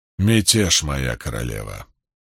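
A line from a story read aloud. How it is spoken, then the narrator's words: Even tone. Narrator (Russian): произнес лейтенант ровным тоном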